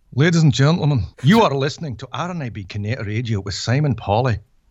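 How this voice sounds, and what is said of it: Put-on Scottish accent. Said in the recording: “I want your best Scottish accent. ... It's not bad.”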